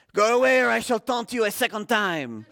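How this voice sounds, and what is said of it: Bad put-on French accent. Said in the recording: “The French guy on top of the wall ... my horrible accent”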